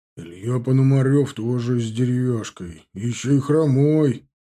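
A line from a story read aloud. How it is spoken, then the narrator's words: Offended grumbling. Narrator (Russian): проворчал обиженно Зубов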